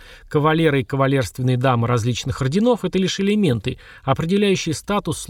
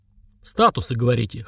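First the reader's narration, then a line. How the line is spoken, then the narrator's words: Snort. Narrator (Russian): хмыкнул он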